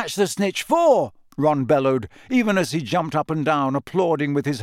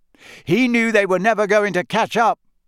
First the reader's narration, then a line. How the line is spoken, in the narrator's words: Harry shouted back over all the noise